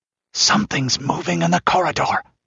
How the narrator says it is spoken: hissed the Pict

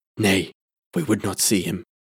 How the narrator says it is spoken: said the elder chief in a low voice

